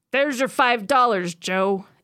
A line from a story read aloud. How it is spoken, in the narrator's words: Eddie shouted, his voice echoing oddly in the dark tunnel